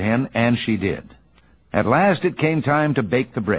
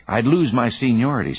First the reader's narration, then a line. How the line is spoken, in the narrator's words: said the cow